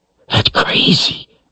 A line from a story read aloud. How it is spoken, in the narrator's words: Richard whispered harshly